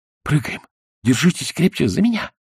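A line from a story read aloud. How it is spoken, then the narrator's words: Quick whisper. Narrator (Russian): быстро прошептал Пиноккио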